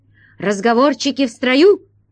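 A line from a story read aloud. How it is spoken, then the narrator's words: Barked command. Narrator (Russian): рявкнул охран-паша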